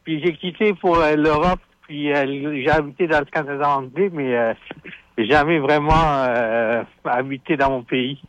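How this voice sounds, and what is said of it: Foreign accent in French. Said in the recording (French): “Donc tu l'as pogné de tes parents, l'accent ... pourquoi t'es pas fier de ton accent?”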